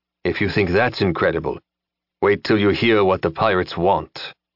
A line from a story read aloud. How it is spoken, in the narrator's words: Dorvel said grimly